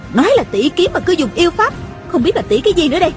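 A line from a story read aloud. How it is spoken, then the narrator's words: Shouting. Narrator (Vietnamese): Tôn Trọng Quân la lên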